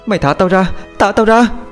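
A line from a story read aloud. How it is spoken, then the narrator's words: Screaming repeatedly. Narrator (Vietnamese): liên tục gào thét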